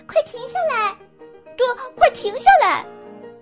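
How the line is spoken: Loud shouting. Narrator (Chinese): 米莉大声的叫喊

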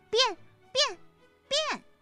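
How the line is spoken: Bold, loud. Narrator (Chinese): 悟空不知哪来的胆量，大声地说

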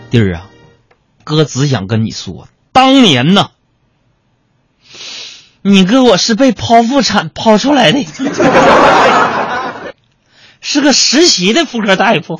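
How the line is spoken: Crying. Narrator (Chinese): 他一边哭着一边说

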